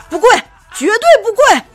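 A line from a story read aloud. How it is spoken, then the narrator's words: Loud roar. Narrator (Chinese): 这个丈夫用很大的声音吼道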